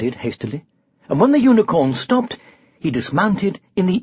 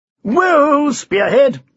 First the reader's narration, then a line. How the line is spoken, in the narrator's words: cried Sir Tumbleweed